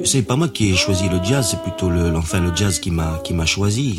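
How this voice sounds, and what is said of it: Southern French accent. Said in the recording (French): “quand je parle j'ai un accent, n'est-ce pas, un accent euh, méridional”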